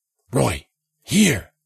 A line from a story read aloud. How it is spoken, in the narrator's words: Jensen whispered